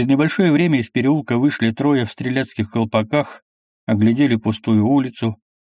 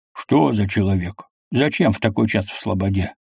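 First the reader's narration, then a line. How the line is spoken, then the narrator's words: Quiet, menacing. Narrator (Russian): Мишка им тихо, угрожающе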